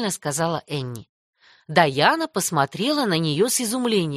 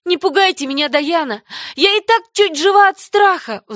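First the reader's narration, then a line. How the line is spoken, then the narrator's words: Pleading. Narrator (Russian): взмолилась Энни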